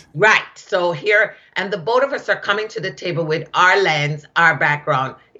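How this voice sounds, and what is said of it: Jamaican accent. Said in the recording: “this Jamaican woman with an accent”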